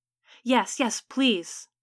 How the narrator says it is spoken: Agnes's father said, his voice tinged with desperation

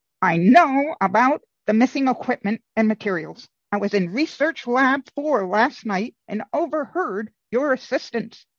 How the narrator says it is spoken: He said, or squeaked as it were, with apparent unbridled excitement

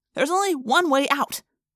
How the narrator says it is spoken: I snapped

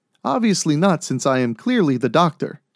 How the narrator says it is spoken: nodded happily

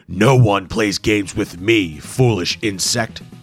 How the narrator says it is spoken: bellowed

